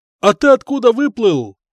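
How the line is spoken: Shout. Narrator (Russian): крикнул я

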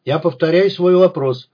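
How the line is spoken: Loud man. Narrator (Russian): громко сказал худой человек в пиджаке советского покроя

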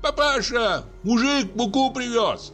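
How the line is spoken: Shouted. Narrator (Russian): крикнул Ваня

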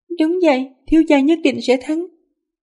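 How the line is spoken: Worried but smiling. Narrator (Vietnamese): Nàng rất lo lắng nhưng vẫn mỉm cười, nói

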